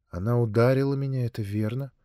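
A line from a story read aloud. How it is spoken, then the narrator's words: Calm old woman. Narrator (Russian): спокойно сказала бабушка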